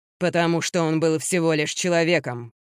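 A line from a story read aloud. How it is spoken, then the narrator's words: Growling. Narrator (Russian): прорычал Стюарт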